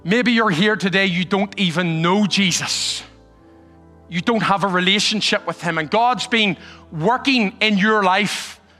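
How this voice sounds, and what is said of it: Irish accent. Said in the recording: “this guy with a strange accent all the way from Ireland”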